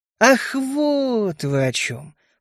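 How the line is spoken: Drawn-out drawl. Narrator (Russian): протянул я

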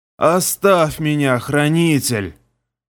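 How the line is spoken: Hoarse wheeze. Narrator (Russian): прохрипело лихо

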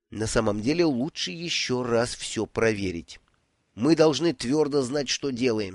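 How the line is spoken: Plain. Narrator (Russian): сказал он

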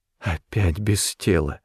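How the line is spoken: Tearful whisper. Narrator (Russian): прошептала голова Брике, и глаза ее наполнились слезами

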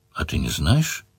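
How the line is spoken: Calm question. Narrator (Russian): спокойно спросила Мара

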